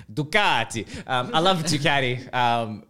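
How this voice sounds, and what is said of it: Put-on Italian accent. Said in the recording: “I'm going to say it with a bit of an accent ... So I'm saying it with the accent. You got to say those Italian names with the accent behind it.”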